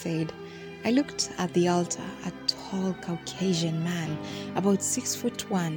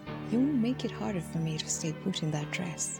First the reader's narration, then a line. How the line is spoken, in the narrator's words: Damien whispered